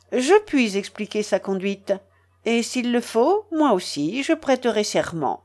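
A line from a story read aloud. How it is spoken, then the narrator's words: Firm voice. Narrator (French): dit-il d'une voix ferme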